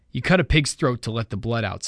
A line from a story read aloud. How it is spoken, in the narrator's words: said Jack